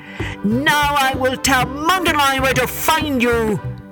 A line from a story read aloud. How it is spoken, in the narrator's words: He yelled back to Benito